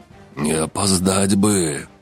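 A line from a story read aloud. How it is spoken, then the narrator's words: Grumble through teeth. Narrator (Russian): пробурчал сквозь зубы Келиэль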